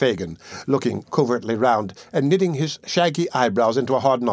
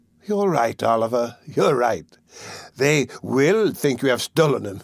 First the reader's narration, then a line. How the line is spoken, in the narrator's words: chuckled the Jew